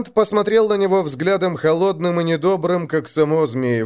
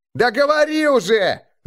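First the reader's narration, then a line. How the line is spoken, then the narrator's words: Crowd shouting. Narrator (Russian): закричали все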